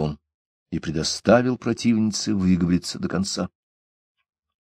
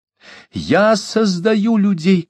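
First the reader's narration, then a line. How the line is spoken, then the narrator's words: Shout. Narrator (Russian): кричала она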